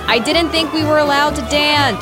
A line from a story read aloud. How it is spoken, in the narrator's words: yelling